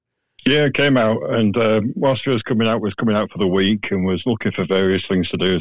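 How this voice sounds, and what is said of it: Subtle West Yorkshire English accent. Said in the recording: “is that the accent I'm picking up? ... It's quite subtle. ... Leeds, which is pretty central between north and south. ... So it's West Yorkshire”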